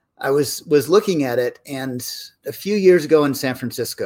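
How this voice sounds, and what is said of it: Usual voice. Nothing is said of it.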